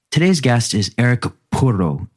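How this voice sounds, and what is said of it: Attempted Finnish accent on a name. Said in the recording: “I tried my best to give that a Finnish accent, but may have failed.”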